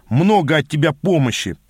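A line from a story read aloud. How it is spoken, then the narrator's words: Growl releasing nervous energy. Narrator (Russian): прорычал я, радуясь случаю выплеснуть сдерживаемую нервную энергию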